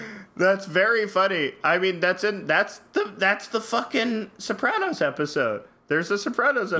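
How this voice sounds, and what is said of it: Usual voice. Nothing is said of it.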